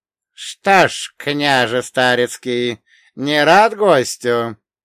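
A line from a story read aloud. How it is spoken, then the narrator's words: Loud mocking regal tone. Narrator (Russian): Громко на публику начал он, пытаясь изобразить насмешливую царскую интонацию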